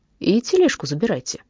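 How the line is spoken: Dry command. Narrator (Russian): сухо приказал

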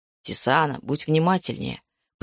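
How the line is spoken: Grumbling. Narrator (Russian): пробурчал Макс

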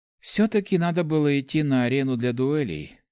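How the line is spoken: Sigh. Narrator (Russian): вздохнула Церебра

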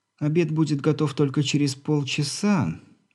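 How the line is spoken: Conspiratorial tone. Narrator (Russian): заговорщицким тоном сообщила девушка

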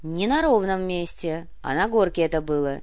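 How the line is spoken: Cold. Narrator (Russian): холодно произнесла Анна

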